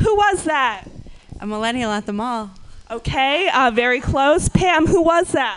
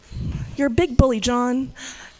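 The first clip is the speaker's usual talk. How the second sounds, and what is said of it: Impression of Elizabeth Warren. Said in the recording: “I'm going to do an impression, and you're going to guess what that impression is ... That was Senator Elizabeth Warren being held at the forehead by CEO John Stumpf.”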